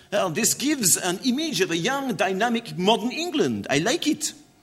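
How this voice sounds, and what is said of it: Weak put-on French accent. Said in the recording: “Not a very good French accent”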